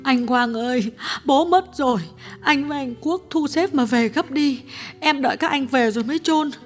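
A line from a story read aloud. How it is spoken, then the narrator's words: Sister's tearful phone voice. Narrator (Vietnamese): Cô em gái điện thoại sang mếu máo nói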